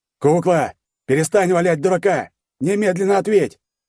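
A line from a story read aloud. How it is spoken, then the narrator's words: Hopeless shouting. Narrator (Russian): прокричал Павел без особой надежды на ответ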